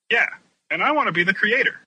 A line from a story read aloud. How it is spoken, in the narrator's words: Keset exclaimed